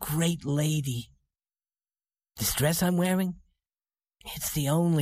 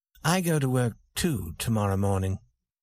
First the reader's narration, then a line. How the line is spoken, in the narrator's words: he said